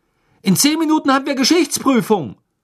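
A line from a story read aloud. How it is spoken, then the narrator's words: Calling after someone. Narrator (German): rief er Ron nach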